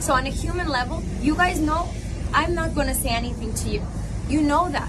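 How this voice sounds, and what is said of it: Spanish-sounding accent. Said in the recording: “pretending to be from Spain ... Listen to the accent all the way through.”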